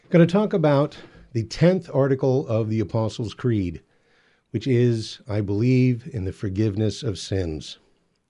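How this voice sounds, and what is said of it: Out of breath. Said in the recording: “I'm a little out of breath. I had to hustle to use the restroom during our 2 minutes off, and I'm a little out of breath.”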